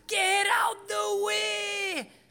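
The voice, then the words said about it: Screamed imitation of a foreign accent. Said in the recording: “he started to scream at me ... That was his accent.”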